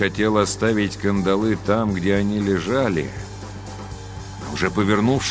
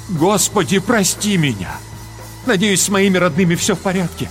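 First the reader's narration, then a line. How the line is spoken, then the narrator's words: Exclamation. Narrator (Russian): воскликнул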